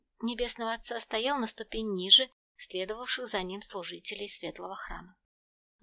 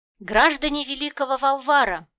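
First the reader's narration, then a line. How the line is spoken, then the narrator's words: Clear loud proclamation. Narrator (Russian): Отчетливо и громко провозгласил главный толкователь наставления Небесного Отца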